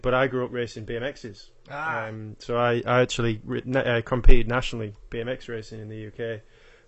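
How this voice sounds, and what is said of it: Yorkshire accent with Australian tinge. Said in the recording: “enjoy your, your accent ... my accent is, effect, well, pretty much all uh, Yorkshire with a little bit of Australia chucked in there as well”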